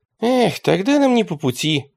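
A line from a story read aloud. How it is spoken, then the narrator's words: Sighing. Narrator (Russian): вздохнул Радищев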